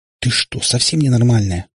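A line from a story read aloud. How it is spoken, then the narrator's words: Little sister hissing. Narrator (Russian): зашипела на Катю сестренка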